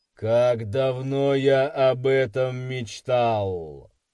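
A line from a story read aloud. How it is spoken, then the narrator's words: Thoughtful mutter. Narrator (Russian): Задумчиво пробормотал он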